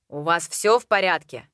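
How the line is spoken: Muttered. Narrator (Russian): Пробурчал

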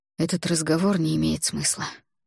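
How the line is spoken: Weary. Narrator (Russian): устало произнес Альгидрас

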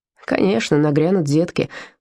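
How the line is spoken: Grumbling. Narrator (Russian): пробурчал Вольфганг

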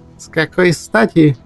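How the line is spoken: Snorted. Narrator (Russian): фыркнула Инна Маркова

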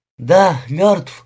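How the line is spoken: Breathed out. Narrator (Russian): выдохнула Симона

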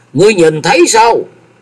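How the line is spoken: Sudden raised shout. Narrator (Vietnamese): Từ Thăng bỗng cao giọng quát

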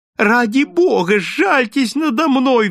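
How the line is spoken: Shrill squeal. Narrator (Russian): взвизгнул он

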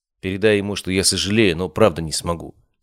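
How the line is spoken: Plain. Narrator (Russian): сказал я

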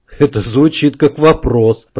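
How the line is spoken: Grumble. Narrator (Russian): проворчал Вадим

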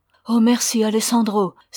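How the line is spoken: Exclaimed. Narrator (French): s'écria Ramona

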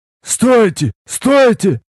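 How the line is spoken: Hissing shout, hunchback. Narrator (Russian): Немилосердно шипя, прокричал горбатый Шурт

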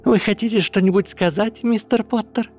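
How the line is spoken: Cheerful inquiry, woman. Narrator (Russian): Осведомилась женщина так радостно, словно они были не на суде

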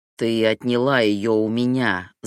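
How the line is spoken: Growled. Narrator (Russian): зарычал Ахмат

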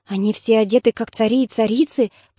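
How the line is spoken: Boy whispering. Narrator (Russian): прошептал мальчик Андромахе

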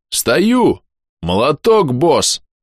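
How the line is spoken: Deep bass voice. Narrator (Russian): пробасил скрываемый паром бом

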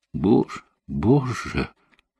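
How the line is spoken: Whisper. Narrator (Russian): прошептала она

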